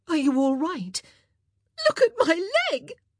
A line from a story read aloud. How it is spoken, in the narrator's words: Kate nearly shrieked